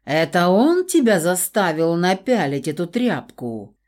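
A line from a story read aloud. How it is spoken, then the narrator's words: Menacing question. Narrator (Russian): грозно поинтересовался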